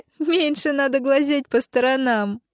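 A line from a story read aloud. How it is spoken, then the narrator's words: Girls giggling. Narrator (Russian): хихикали девчонки Звездочка и Вспышка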